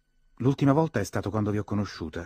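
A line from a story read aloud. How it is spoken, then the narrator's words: Quick, confident answer. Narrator (Italian): rispose lei con voce pronta e sicura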